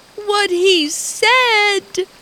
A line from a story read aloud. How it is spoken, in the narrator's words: she wailed